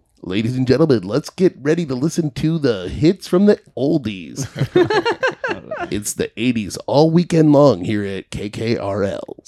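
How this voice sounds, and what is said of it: Radio DJ announcer voice. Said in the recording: “I can do the radio voice.”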